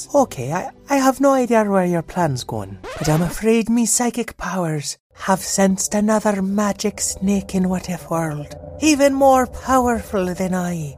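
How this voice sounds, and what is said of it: Made-up, poorly executed accent. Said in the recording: “all our accents are entirely made up and poorly executed. If we sound like an actual person, that's probably an accident.”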